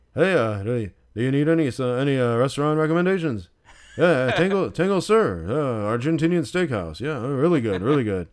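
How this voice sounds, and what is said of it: Imitates another person's voice. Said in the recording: “You had a good impression of Norman, too.”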